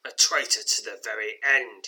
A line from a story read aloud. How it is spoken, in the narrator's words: he snarls